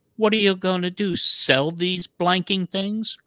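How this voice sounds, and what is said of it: Imitated English accent. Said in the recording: “with the English accent ... that was my impression of Richard Dawson”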